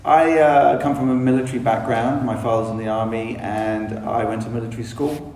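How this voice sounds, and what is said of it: English London accent. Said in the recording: “you can tell I'm probably from England... I got a bit more of a London accent”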